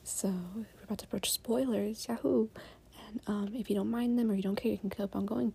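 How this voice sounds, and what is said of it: Whispering. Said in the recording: “It's currently very early in the morning, so I'm whispering.”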